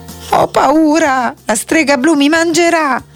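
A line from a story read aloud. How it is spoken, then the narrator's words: Whimpering. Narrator (Italian): Dick continuava a piagnucolare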